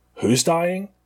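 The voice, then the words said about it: Imitates another person's voice. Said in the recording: “in a Nicolas Cage impression ... That's not terrible.”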